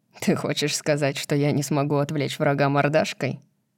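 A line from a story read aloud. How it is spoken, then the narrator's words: Laughing, mock-offended. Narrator (Russian): Кит спрашивает сквозь смех и притворяется обиженным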